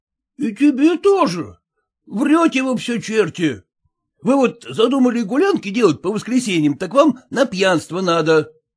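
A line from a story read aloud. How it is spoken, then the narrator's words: Exclaiming. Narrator (Russian): воскликнул Зваров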